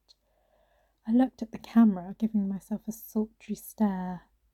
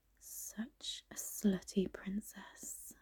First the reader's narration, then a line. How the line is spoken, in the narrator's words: I murmured under my breath